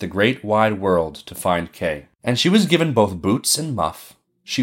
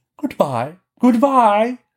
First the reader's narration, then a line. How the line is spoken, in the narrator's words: the prince and princess cried out, and little Gerda cried, and the crow cried